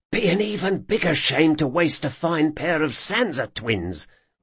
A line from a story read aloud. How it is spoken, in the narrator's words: whispered his brother